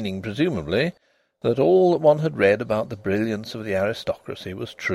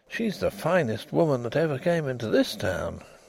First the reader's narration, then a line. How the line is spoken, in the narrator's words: he murmured